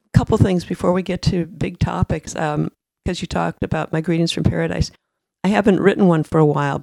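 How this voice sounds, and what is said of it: Hoarse voice. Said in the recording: “I'm a little hoarse.”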